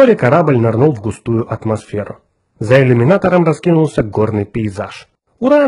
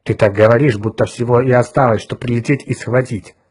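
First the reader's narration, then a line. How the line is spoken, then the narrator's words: Grumbling. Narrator (Russian): проворчал Отто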